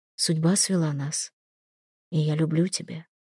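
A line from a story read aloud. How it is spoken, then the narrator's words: Quiet. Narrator (Russian): тихо сказал Хельги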